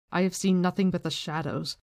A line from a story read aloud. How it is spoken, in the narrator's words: came the answer in a heavy accent